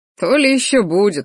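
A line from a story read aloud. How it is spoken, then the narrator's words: Short laugh. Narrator (Russian): хохотнул Рахтар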